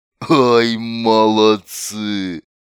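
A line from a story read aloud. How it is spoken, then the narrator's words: Laughing big man. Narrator (Russian): Громила хохотнул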